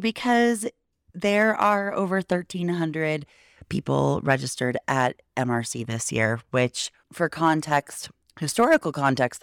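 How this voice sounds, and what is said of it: Slightly gravelly voice. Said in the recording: “my voice is probably a little bit gravelly, which we will just chalk up to late nights and smoky air and a little bit of allergies and talking at a higher decibel than I usually do”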